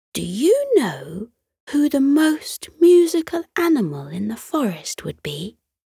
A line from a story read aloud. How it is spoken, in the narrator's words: The little bluebird chirped immediately, without hesitation